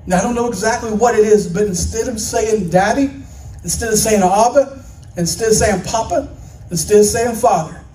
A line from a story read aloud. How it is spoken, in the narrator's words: he cries out